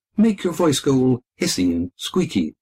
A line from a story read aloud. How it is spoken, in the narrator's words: said Daniel